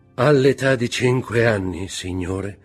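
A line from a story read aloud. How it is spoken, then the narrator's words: Sighing interjection. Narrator (Italian): intervenne con un sospiro il lucchese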